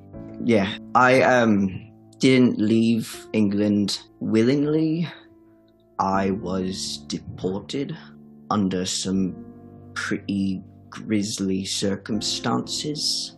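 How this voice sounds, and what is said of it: English accent. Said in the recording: “Accent, whatnot.”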